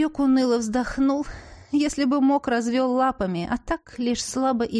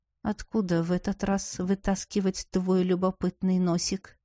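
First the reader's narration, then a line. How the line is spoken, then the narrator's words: Quiet unsettlingly calm question. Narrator (Russian): со спокойствием, от которого мне стало не по себе, тихо спросил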